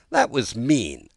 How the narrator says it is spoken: Alice said indignantly

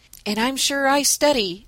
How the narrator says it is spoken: added Dan, with a groan

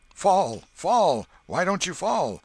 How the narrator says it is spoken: Tom shouted

